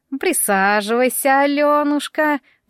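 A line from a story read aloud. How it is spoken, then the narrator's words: Creaky old voice. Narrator (Russian): проскрипела Яга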